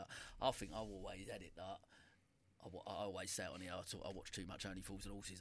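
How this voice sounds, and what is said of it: Noticeable regional accent. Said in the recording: “Can tell with your accent.”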